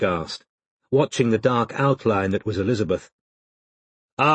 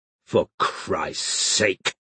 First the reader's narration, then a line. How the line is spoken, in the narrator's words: growled Fancourt